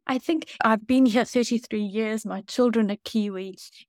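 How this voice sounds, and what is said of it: Foreign accent. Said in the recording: “as you can hear by my accent, people sometimes say to me, oh, when did you arrive?”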